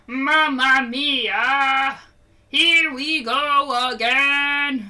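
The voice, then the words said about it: Nasal sung imitation of another's voice. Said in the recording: “He sounds like this... Like Kermit the Frog?... without that much nasal”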